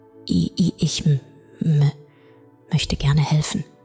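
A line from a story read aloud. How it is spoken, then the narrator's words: Stammered. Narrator (German): stammelte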